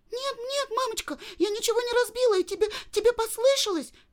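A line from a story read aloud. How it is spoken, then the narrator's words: Shouting girl. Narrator (Russian): Закричала Женя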